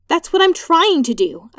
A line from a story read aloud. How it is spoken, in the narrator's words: exclaimed